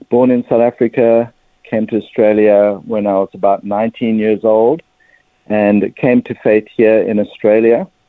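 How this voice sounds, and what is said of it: South African accent. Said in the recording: “my accent, I'm a South African Jewish person”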